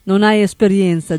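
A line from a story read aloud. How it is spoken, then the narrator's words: Plain. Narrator (Italian): disse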